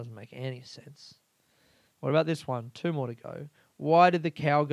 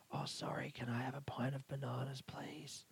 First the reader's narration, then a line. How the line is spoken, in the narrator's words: Door whispers back